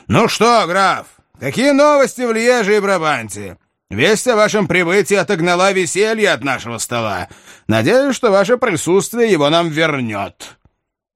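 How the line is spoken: Impatient shout. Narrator (Russian): герцог нетерпеливо закричал ему

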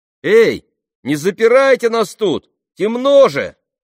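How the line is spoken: Shout. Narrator (Russian): крикнул Алфи

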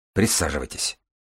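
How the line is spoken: Calm. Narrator (Russian): спокойно указал на кресло Баренц

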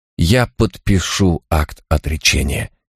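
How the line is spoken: Quiet. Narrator (Russian): тихо добавил он

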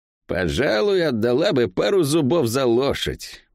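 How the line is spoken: Grumbling. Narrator (Russian): проворчала Лавиани

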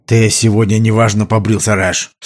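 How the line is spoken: Usual irritated tone. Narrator (Russian): сказал Грассиоли своим нормальным раздраженным тоном

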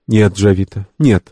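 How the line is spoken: Calm but firm. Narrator (Russian): спокойно, но решительно ответила Лиси Вэг

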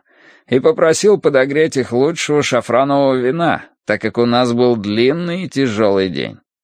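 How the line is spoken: Cheerful. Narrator (Russian): весело сообщил он

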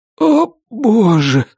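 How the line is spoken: Strangely thin exhale. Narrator (Russian): выдохнул Вик странно тонким голосом

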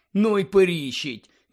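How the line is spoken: Sighed. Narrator (Ukrainian): зітхнув Рон

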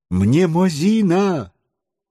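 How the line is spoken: Scientist exclaiming. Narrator (Russian): воскликнул ученый

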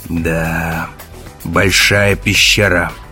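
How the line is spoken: Grumble. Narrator (Russian): пробурчал Керк

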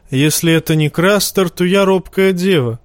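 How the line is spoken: Snorting. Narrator (Russian): хмыкнул Тормунд

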